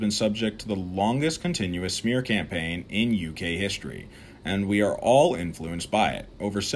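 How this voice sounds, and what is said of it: Usual voice. Nothing is said of it.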